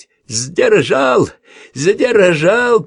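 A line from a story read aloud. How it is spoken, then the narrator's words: Roared into ear. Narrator (Russian): проревел Калакша ему в ухо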